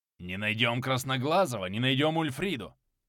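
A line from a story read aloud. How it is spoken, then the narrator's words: Grumble. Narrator (Russian): проворчал Харальд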